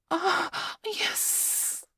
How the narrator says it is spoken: I hissed again

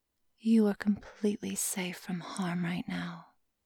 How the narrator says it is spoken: she said in a hushed, sultry tone

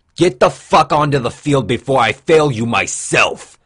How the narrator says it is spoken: the instructor shouted menacingly

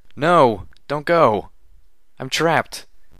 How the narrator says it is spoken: I cried out, my hind legs crushed under a fallen wall

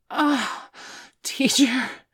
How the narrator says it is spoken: Bailey gasped from the sudden rush of pleasure

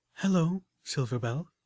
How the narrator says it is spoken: Velvet Remedy said gently

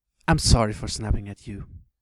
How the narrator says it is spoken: she said

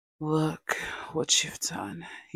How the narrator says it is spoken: he rasps, voice trembling with something like awe

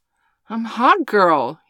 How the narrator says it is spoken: he cried

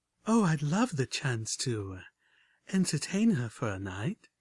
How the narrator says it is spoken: purred Homage back

